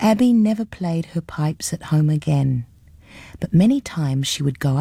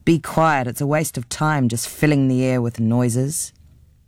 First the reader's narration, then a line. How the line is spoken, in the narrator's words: her father growled